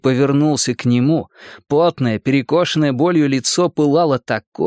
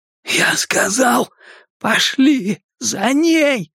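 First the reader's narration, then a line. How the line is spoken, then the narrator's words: Strained forced words. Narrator (Russian): Удалось выдавить ему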